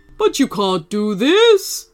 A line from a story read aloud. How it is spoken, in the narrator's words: roared Sugartooth, full of frustration